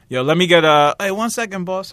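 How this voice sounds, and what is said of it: Clumsy put-on bodega clerk accent. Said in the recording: “however they accent. I'm not good with accents. I wish I was one of those people that was good with accents.”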